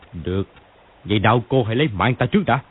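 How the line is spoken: Harsh voice through gritted teeth. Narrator (Vietnamese): Phùng Mặc Phong nghiến răng gằn giọng

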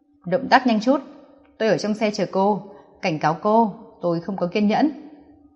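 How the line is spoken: Cold. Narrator (Vietnamese): Nam Cung Kình Hiên lạnh lùng nói

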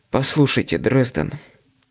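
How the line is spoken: Quiet speech. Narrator (Russian): тихо заговорил агент

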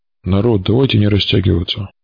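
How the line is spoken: Gruff mutter from afar. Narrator (Russian): буркнул борода с того берега

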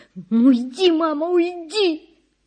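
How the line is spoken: Sobbing. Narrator (Russian): зарыдала Надя

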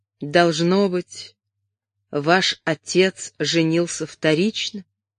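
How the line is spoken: Hesitant, quiet, thoughtful question. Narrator (Russian): как бы поколебавшись, тихо и задумчиво спросил

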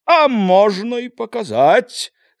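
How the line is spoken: Loud laughing. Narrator (Belarusian): зарагатаў Хоня

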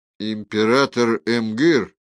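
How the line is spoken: Calm. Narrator (Russian): спокойно сказал Хоцпорн

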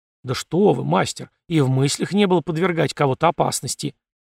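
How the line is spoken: Muttering. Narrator (Russian): Настоятель пробормотал

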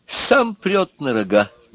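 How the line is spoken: Laughing. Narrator (Russian): засмеялся губошлеп

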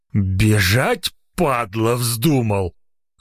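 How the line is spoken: Angry hoarse rasp. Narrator (Russian): зло прохрипел он

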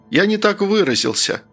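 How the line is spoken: Calm voice. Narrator (Russian): начал я спокойным голосом

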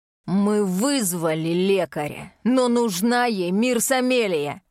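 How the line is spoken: Growling father. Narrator (Russian): В голосе отца прорезаются рычащие нотки

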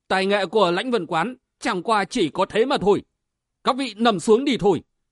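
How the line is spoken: Loud shout. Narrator (Vietnamese): Vân Giật Long quát to

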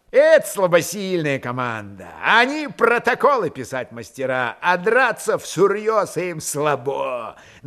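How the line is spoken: Mocking shout. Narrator (Russian): насмешливо крикнул Чумаков

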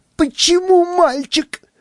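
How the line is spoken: Shrill squeal. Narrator (Russian): взвизгнула я

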